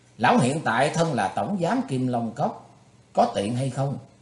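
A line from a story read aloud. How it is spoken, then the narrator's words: Smiling. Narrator (Vietnamese): mỉm cười nói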